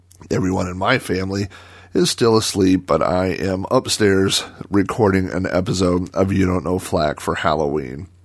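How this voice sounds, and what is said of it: Raspy morning voice. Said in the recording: “my voice sounds a little raspy, it's because it is 8 o'clock in the morning.”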